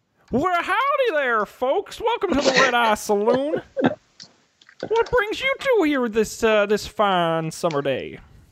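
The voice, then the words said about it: Put-on Texan cowboy accent. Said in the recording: “Did you do some market research for this accent ... this is my accent now. I'm a Houstonian.”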